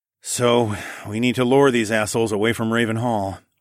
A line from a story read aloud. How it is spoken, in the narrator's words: I sighed